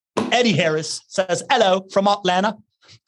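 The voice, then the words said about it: Put-on British accent. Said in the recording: “I'm giving you a British accent ... it's easier to pronounce things without H's when I'm saying it in a British accent.”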